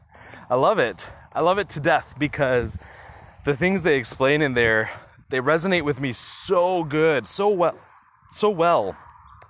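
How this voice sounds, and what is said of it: Out of breath while talking. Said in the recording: “I'm like totally out of breath today. ... I'm like dying while I'm walking and trying to talk”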